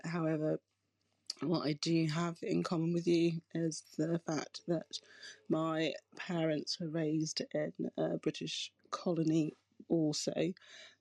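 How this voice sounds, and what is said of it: UK accent. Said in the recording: “Clearly, you can hear I have a UK accent.”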